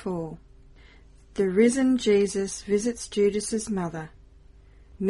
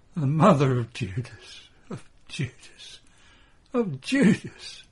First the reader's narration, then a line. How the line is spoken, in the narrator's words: She pants and then resumes